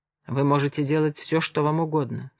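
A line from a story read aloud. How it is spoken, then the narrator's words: Quiet. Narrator (Russian): сказал он тихо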